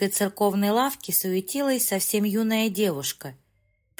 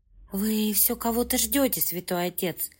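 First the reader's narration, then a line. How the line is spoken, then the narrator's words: Whisper. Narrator (Russian): прошептала девушка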